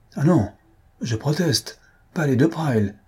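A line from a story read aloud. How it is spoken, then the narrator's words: Girl's exclamation. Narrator (French): s'écria la petite de Lassolet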